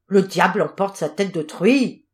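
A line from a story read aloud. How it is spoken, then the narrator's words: Enraged cry. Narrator (French): s'écria-t-il ensuite avec rage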